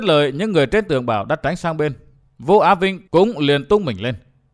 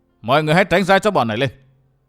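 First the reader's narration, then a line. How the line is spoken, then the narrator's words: Raised loud voice. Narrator (Vietnamese): Vũ Á Vinh cao giọng nói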